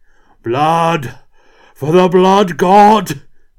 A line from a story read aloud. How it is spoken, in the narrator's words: roared Kurt